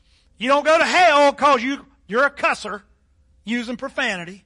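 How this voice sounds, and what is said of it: Southern drawl. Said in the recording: “I can hear him say that just in that southern drawl.”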